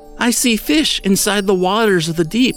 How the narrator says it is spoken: she cried out

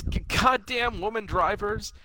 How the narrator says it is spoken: he yells

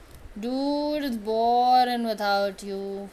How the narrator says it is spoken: Logan groans

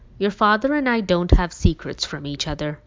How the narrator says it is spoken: Mom replied curtly

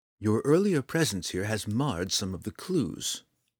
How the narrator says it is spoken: Dove explained calmly, disarmingly

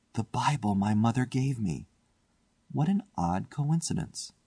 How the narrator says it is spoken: He looked round uneasily and shivered slightly as he murmured to himself

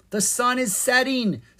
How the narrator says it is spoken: Zed cried

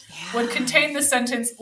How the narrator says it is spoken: Leatherface laughed

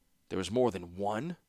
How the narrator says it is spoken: he said bitterly

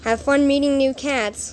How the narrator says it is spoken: Lynxpaw says sadly

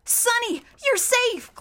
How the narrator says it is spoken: Klaus cried

